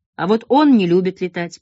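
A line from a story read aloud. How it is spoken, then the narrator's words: Grumbling. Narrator (Russian): проворчал Свиридов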